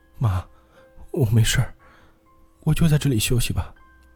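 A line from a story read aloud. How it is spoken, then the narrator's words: Crying while speaking. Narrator (Chinese): 我妈边哭边说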